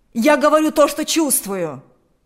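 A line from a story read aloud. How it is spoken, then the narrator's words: Shouted. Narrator (Russian): закричал Игорь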